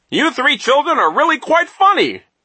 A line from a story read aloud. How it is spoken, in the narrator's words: Nero cried